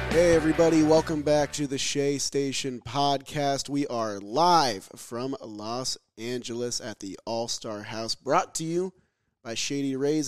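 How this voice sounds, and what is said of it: Hoarse, worn-out voice. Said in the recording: “my voice is kind of shot because I was screaming at the home run derby yesterday”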